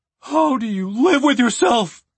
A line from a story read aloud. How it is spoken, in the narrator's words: cried the dwarf